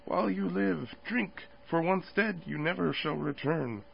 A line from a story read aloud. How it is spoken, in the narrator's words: lip to lip it murmured